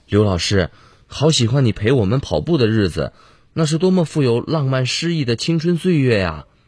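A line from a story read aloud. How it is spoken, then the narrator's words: Heartfelt, wistful. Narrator (Chinese): 每个人都会由衷的感叹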